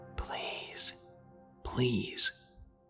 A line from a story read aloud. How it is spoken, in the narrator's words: quietly whispered